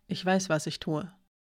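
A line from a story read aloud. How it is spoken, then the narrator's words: Calm. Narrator (German): sagte Hiraya ruhig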